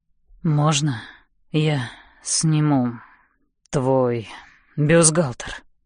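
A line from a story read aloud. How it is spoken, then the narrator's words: Hoarse wild voice. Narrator (Russian): Голос настолько хриплый и дикий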